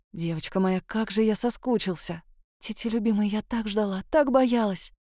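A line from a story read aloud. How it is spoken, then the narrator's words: Tender relieved whisper. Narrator (Russian): шептала я, оттаивая в его руках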